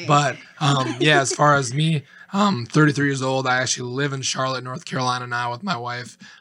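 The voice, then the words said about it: Slightly raspy voice. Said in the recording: “sorry about my voice. A little raspy”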